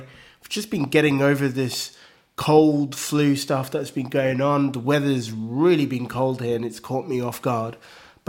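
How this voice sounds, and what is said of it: Croaky, slightly unclear voice. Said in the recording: “I'm feeling a little bit under the weather, so if my voice is a little bit croaky or not 100% clear”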